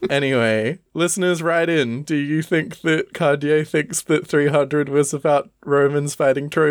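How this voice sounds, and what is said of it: Usual voice. Nothing is said of it.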